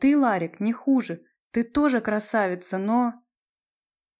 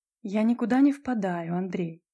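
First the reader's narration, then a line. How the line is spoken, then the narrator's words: Calm. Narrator (Russian): спокойно ответила Наташа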